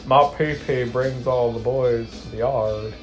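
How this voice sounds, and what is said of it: Exaggerated deep voice. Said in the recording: “Talk about your pee-pee in a deep voice”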